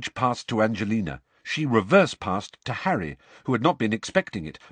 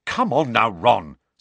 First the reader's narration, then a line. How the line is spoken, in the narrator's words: said Angelina crossly